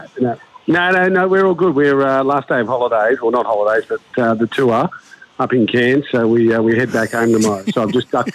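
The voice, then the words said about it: Defeated, deflated tone. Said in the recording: “You sound so defeated”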